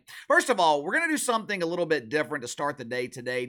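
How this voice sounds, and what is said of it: Strained, struggling voice. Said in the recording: “my voice is struggling a little bit this morning. That is the consequence of 2.5 hours of yelling at my TV last night.”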